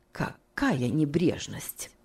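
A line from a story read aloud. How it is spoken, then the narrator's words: Muttering. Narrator (Russian): пробормотала мисс Офелия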